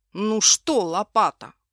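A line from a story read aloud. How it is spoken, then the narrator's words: Menacing, puffing boy. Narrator (Russian): грозно насупившись и пыхтя сказал мальчишка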